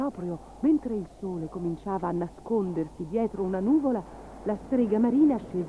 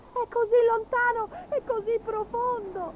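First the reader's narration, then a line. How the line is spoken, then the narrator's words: Sobbing. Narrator (Italian): singhiozzò Gobbolino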